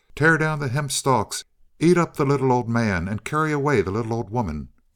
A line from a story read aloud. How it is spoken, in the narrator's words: cried the Hobyahs